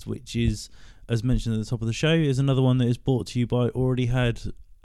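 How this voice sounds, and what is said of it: Hoarse, worn-out voice. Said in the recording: “my voice is a bit wrecked, but I've literally just come in from band practice”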